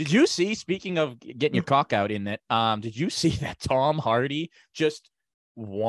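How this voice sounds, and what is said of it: Usual voice. Nothing is said of it.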